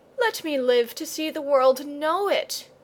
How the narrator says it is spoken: pleaded Leo

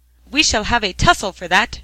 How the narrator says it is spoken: shrieked the troll

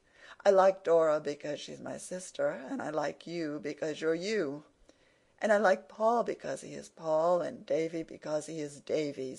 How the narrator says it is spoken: said Anne gaily

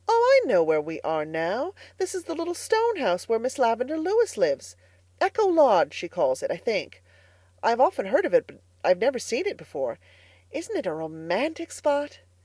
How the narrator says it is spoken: Diana exclaimed

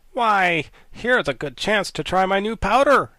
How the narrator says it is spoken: said she eagerly

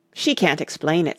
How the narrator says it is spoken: said the Gryphon hastily

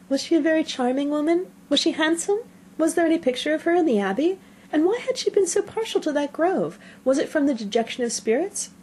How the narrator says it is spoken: Were questions now eagerly poured forth

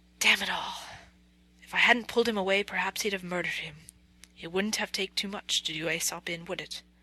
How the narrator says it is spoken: whispered Ivan to Alyosha

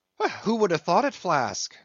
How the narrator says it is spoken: cried Stubb

